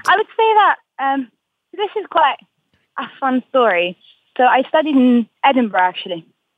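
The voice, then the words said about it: English accent with Scottish twang. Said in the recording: “you have a pitch-perfect English accent ... my English friends would say that I have a Scottish twang, but my Scottish friends would say that I have an English twang”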